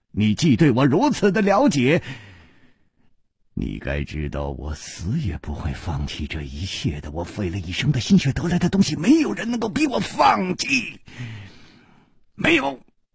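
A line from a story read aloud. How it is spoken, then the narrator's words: Laugh cut off, stern shout. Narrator (Chinese): 他的笑声忽然顿住了，厉喝声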